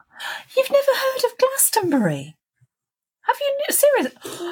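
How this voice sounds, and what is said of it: Shocked, incredulous tone. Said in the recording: “Can you hear the shock in my voice?”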